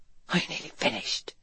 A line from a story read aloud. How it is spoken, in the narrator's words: Garrett asked in a hushed voice